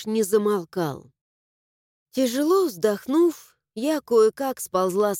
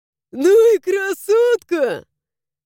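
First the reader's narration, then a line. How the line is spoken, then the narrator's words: Laughing loudly. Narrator (Russian): захохотал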